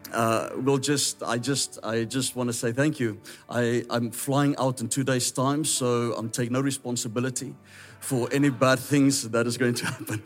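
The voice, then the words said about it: South African English accent. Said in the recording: “if I say pastor, it's a South African accent. I know it sounds like the food you eat. Pasta, you know, but that is how we speak.”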